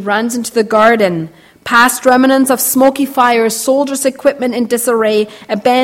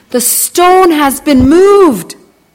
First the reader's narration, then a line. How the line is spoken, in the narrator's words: Suddenly, Mary shouts